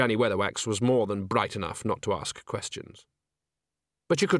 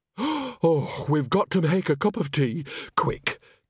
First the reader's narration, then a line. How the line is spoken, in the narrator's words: gasped Nanny, almost sagging with relief